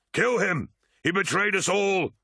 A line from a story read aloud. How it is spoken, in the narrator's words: shouted Tarvitz